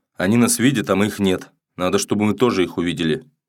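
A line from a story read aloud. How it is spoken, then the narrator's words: Irritated. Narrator (Russian): Он сказал раздраженно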